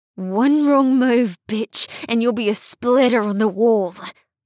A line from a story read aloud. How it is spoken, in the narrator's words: Annie said through gritted teeth